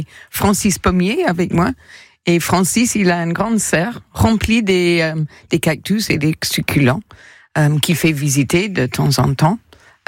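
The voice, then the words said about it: English accent speaking French. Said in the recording (French): “son délicieux accent anglais”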